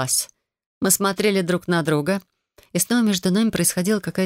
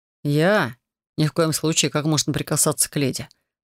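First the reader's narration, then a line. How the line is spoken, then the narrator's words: Snort. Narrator (Russian): хмыкнул Делиан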